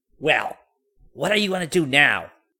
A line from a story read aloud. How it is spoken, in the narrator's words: she cried out sharply